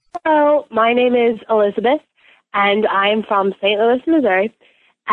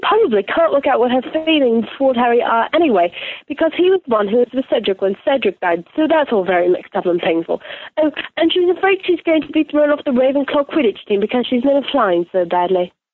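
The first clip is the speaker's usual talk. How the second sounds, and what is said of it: Put-on British accent, deeper voice. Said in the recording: “Another good Hermione. ... It's a little bit more sort of deep and grown up. ... still jealous of anyone who can do the British accent. ... I love the pacing. ... the whole sort of cadence”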